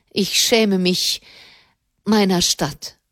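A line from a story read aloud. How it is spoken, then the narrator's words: Trembling voice. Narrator (German): sagte er mit bebender Stimme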